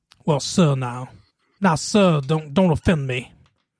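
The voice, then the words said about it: Put-on Georgia Southern accent. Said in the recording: “You went Southern. I can't do it, but I can go maybe Georgia... That's kind of Georgia.”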